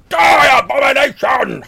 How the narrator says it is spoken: Weimar, in a voice that's clearly not his own, shouting very loudly

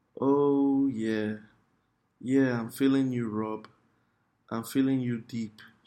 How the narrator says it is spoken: she moaned into the phone

